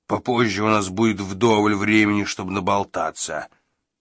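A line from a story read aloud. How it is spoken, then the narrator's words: Growl. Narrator (Russian): прорычал он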